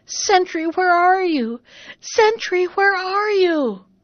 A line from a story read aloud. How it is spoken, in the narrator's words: the princess howling and shrieking